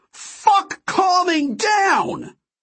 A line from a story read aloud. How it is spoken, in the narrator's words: I shouted